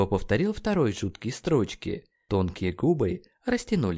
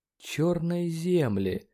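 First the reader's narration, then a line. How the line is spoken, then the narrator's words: Muttering. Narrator (Russian): пробормотал он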